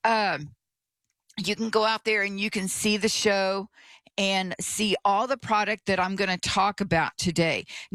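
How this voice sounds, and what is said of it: Scratchy voice. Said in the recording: “my voice is a little scratchy this morning”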